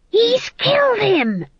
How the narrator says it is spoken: she hissed

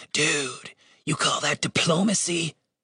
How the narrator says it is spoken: He whispered

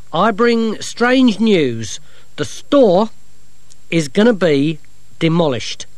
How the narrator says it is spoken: he said loudly

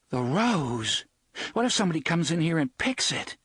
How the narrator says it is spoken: A little moan of horror

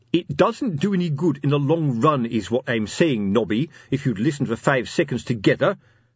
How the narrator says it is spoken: said Fred Colon sharply

